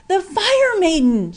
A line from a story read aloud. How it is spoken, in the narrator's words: shouted Ryan for the last time